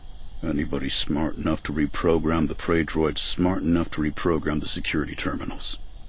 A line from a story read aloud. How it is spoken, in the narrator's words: Avaros muttered